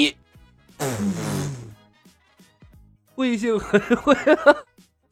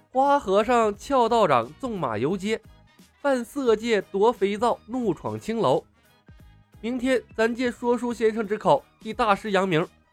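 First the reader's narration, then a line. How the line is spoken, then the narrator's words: Smiling, amused. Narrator (Chinese): 李牧笑吟吟地看着慧性和尚说道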